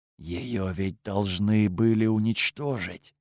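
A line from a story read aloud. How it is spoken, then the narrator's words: Whispered. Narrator (Russian): прошептал он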